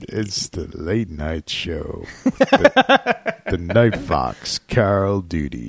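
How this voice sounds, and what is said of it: Sultry late-night radio broadcaster voice. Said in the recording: “give me the sultry ... voice ... Sultry ... You got kind of a the radio broadcaster voice going on right now. Late night.”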